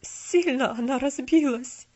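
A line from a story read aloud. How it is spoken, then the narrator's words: Trembling old voice. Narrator (Russian): дрожащим голосом проговорил старый Том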